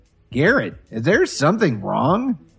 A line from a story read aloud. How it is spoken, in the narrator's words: Dorothy asked hesitantly